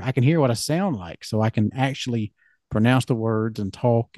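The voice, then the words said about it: Deep podcast-style voice. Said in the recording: “you have a podcast voice ... It's too deep.”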